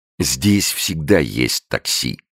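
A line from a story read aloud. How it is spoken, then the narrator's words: Plain. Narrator (Russian): сказал портье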